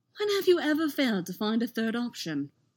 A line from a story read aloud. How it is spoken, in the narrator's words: Anakin laughed, which triggered another fit of coughing